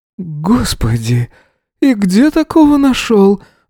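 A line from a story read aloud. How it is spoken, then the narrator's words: Breathy exclamation. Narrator (Russian): выдохнул Крис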